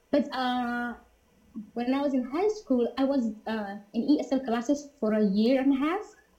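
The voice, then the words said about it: Non-native English accent. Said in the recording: “I still have my accent”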